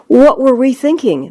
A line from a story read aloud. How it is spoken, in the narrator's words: Minion 2 exclaims